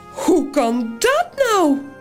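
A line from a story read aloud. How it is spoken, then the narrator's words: High-pitched voice. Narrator (Dutch): zegt het varkentje met de hoge stem van Toos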